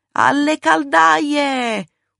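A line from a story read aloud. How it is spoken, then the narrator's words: Screaming burned woman. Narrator (Italian): urlava la bruciata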